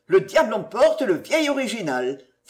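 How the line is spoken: Exclaiming. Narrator (French): s'écria M

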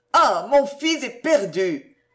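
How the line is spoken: Tearful cry. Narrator (French): s'écria Madame de Boiscoran en fondant en larmes

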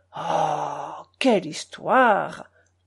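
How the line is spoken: Grumbled. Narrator (French): grommela-t-il

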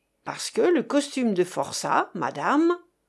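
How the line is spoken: Terrible growling voice. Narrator (French): gronda la voix terrible de Chéri Bibi

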